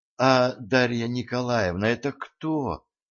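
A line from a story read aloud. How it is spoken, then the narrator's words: Timid, frightened question. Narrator (Russian): робко спросила слегка струхнувшая Валентина Петровна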